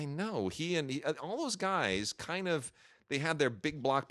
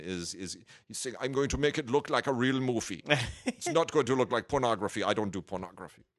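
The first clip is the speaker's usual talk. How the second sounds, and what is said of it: Imitates another person's voice. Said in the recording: “that's a terrible impression, by ... the way”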